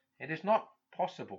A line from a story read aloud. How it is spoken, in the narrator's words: murmured, as a man apologising